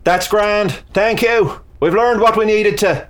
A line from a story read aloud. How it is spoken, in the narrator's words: the Irishman yelled up